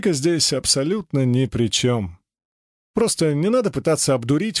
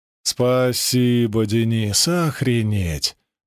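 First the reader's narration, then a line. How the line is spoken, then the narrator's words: Drawled, male. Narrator (Russian): протянул он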